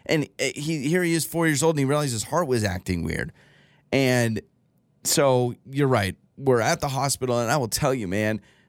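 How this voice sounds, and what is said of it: Emotional, choked-up voice. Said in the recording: “now I'm getting emotional.”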